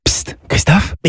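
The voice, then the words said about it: Whispering. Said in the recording (French): “pourquoi chuchotez-vous?”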